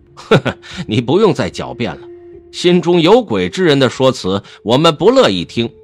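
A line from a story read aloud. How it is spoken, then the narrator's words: Cold sneering laugh. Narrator (Chinese): 忽然一人冷笑道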